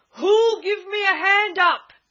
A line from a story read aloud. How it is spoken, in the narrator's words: He roared